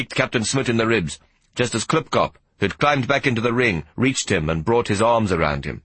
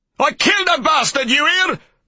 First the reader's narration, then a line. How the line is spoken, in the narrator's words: Bormann shouted